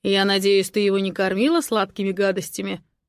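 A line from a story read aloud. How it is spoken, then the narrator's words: Menacing. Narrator (Russian): Грозно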